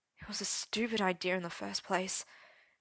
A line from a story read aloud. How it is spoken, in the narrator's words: he muttered against his palms